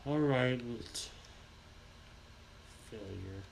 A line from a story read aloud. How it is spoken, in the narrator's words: she muttered